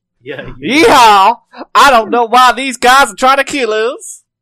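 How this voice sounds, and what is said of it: Put-on American accent. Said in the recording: “That was obviously an American accent”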